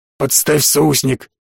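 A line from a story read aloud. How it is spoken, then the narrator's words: Hoarse wheeze. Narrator (Russian): прохрипел кулинар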